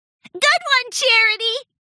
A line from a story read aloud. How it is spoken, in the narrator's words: Pinkie Pie giggled